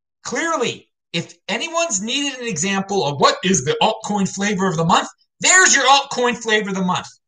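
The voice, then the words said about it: Yelling, loud excited voice. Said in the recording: “I'm yelling ... Why yell about it?”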